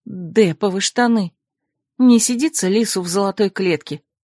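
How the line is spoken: Grumbling. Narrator (Russian): проворчала я

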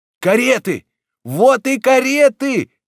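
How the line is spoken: Crowd shouting in unison. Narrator (Russian): закричала толпа в один голос

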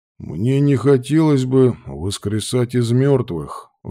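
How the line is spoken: Sighing. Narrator (Russian): вздохнул Лар

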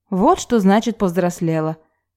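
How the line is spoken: Snorting. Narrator (Russian): хмыкнула Таисия

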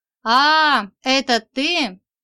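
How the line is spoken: Joyful growl. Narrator (Russian): радостно рыкнул Игорь

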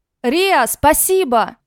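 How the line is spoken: Shouted. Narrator (Russian): крикнул Рик

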